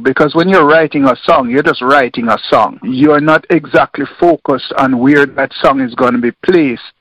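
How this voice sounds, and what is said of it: Caribbean accent. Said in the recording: “I hear the accent, so I'm going to guess there is a Caribbean background.”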